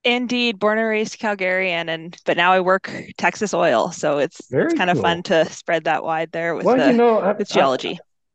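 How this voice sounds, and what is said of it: Canadian English accent. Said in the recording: “You sound like you might be a Canadian native. Is that right? Am I picking up on that accent correctly?”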